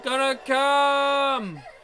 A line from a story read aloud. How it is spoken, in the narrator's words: Akane moans, her eyes moist